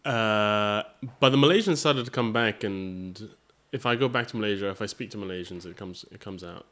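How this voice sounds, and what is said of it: International accent, mixed American and British. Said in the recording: “that's not a Malaysian accent ... it's sort of an international school accent. So it sounds quite American at times, but it's gotten more and more British”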